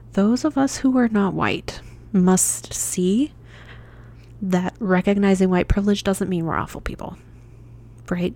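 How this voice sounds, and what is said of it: Strained, fading voice. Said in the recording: “my voice is dying ... I've apparently talked a lot today in my lower voice.”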